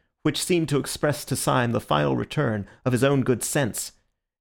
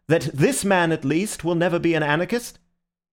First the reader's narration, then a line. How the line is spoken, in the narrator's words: called out Ratcliffe to the French colonel